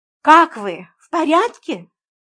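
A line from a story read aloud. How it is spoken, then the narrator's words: Cheerful question. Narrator (Russian): бодро спросила я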